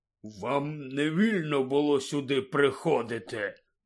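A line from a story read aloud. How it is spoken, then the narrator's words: Hissed. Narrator (Ukrainian): прошипів Гегріт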